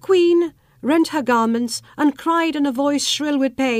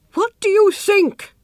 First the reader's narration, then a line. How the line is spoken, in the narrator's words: cried the mother